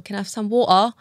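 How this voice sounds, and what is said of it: Put-on Cockney accent. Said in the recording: “At first I was speaking a bit, Cockney.”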